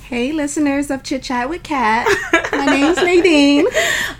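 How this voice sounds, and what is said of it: Put-on sexy voice. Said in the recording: “here go ... with that voice ... little sexual, sexy voice that she be putting on sometimes for people”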